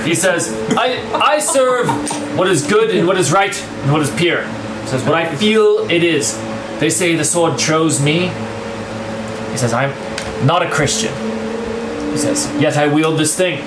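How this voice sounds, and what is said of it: Inconsistent, shifting put-on accent. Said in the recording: “Why does your accent keep changing? ... You're American. ... You're all over the place, man.”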